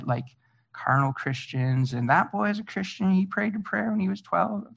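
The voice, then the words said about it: Exaggerated Southern US accent. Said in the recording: “my Southern accent”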